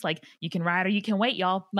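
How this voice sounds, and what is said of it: Put-on Southern American accent. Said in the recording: “you picked up a Southern accent. I love it. That is so good.”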